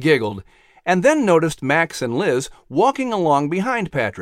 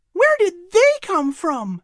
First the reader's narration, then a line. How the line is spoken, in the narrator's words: inquired happily